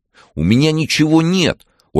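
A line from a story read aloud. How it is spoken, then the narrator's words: Nearly shouting. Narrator (Russian): Ольга уже почти кричала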